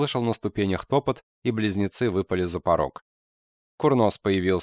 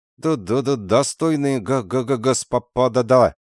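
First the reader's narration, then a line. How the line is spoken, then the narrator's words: Stammering. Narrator (Russian): произнес, заикаясь, бурмистр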